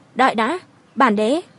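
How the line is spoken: Cold shout. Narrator (Vietnamese): lạnh lùng quát

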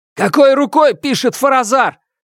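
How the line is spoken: Shout breaking silence. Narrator (Russian): крикнул я, нарушив напряженное молчание

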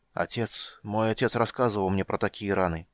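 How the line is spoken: Stammering mutter. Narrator (Russian): пробормотал он, запинаясь

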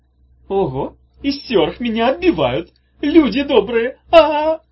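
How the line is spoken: Joyful loud yell. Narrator (Russian): радостно заорала Улита на весь бульвар

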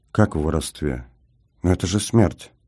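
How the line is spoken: Barely audible question. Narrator (Russian): чуть слышно спросил

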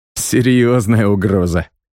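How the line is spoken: Laughing. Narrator (Russian): рассмеялся я

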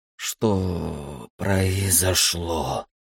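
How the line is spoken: Groggy hoarse rasp. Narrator (Russian): прохрипел проводник, медленно приходя в себя

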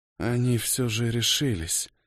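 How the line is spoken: Hoarse whisper. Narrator (Russian): хрипло прошептала кошмар

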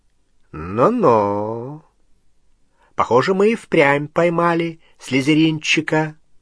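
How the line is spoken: Drawl. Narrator (Russian): протянул Струпьер

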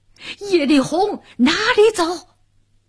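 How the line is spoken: Thunderous yell, burly man. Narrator (Chinese): 一个红脸大汉，响起炸雷般一声呐喊

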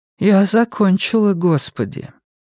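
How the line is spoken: Heavy sigh. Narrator (Russian): Абигейл тяжело вздохнула

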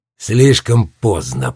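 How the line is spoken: Muttered. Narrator (Russian): пробормотал Марко

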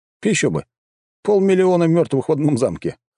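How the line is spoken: Chuckling. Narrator (Russian): хохотнул я

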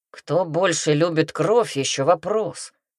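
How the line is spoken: Grumbling. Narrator (Russian): проворчал рыцарь

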